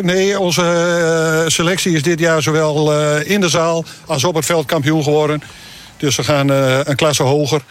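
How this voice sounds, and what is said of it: Groningen regional Dutch accent. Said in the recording (Dutch): “Je komt zelf vanuit Groningenland te horen aan het accent.”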